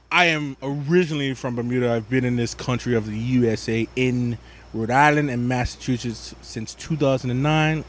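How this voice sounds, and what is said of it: Speaks with a Bermudian accent. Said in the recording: “explain that accent. Tell them where you're from.”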